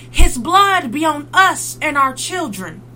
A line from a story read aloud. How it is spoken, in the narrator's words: The crowd shouted